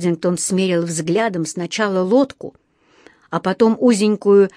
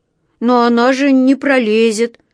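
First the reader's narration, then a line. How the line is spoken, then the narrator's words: Sad drawl. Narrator (Russian): грустно протянул он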